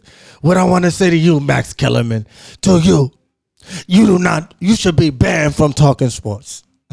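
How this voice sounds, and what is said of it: Imitates another person's voice. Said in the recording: “I'm not trying to hit you with the Stephen A. Smith ... I just wanted to do a Stephen A. impersonation.”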